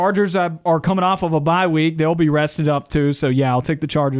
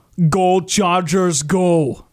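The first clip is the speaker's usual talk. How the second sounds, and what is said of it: Poor imitation of another person's voice. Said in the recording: “That was a terrible impersonation of Arnold Schwarzenegger.”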